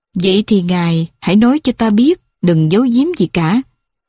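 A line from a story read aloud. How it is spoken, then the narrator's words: Very calm voice. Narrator (Vietnamese): Thấy Cleopatra có vẻ tức giận, Leius nói với giọng rất bình tĩnh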